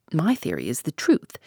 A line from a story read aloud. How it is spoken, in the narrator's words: said Poirot quietly